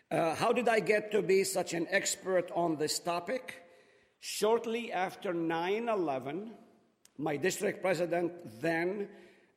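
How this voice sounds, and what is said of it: Speaks with a noticeable accent. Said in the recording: “because of my accent you don't understand”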